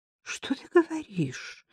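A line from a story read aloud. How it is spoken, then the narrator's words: Weak faint voice. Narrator (Russian): наконец повторила она слабым голосом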